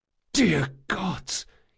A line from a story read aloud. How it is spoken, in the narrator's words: whispered when he saw her